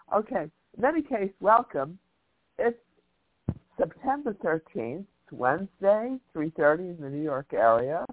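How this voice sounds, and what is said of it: Nasal, congested voice. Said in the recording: “I sound so nasal”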